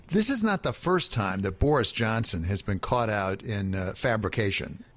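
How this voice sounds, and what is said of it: American accent. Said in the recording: “just to ask this as a Yank here, as you can tell by my accent, I'm a Yank.”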